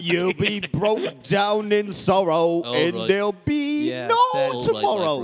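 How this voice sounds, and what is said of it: Sung put-on British accent. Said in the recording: “It's easier to do a British accent when you're singing.”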